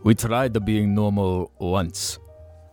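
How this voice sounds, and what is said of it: Put-on Asian accent. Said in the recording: “I don't know why the Asian accent came in.”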